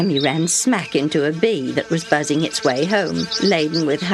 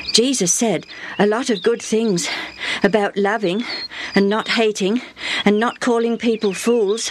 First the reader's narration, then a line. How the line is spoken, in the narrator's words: Benny panted